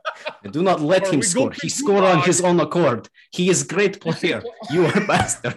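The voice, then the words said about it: Russian accent impression. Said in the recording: “Best Russian impersonation I've heard in a long time.”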